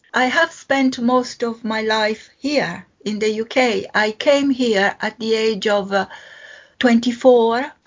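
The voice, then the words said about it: Italian accent. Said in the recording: “Am I right in thinking that you're Italian? ... my pronunciation is still here. It hasn't vanished. ... it's a lovely accent.”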